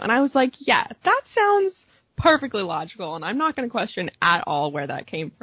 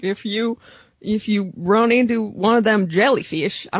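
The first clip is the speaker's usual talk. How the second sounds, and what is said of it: Put-on rural farmer accent. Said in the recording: “I don't know why I'm still doing the farmer accent.”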